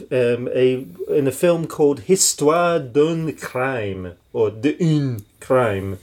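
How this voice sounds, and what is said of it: Poorly pronounced French accent. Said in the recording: “my terrible ruination of that accent”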